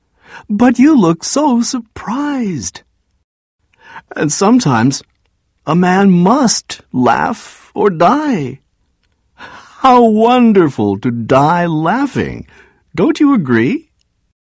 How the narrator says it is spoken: still laughing in that strange way

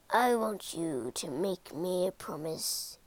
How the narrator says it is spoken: he croaked

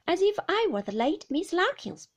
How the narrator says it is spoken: said Agnes, breaking into a pleasant laugh

